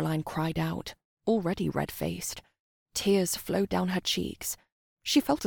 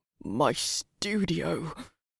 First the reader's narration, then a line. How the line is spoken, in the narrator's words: Chinny muttered